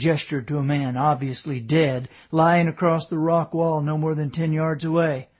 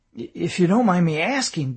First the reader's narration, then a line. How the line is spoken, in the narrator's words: David stammered